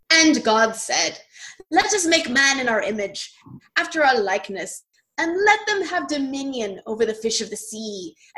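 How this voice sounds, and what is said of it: Grand, majestic reading voice. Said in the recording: “read in my most majestic voice”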